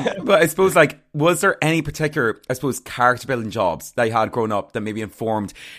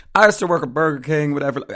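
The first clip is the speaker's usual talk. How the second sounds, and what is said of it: Imitation of Oprah's voice. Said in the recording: “it's like an Oprah question ... I don't know why I gave her that accent”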